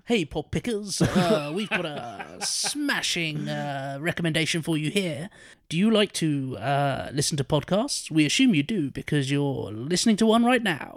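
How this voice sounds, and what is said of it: Local radio DJ ad voice. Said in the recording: “the ad voice ... local radio DJ voice”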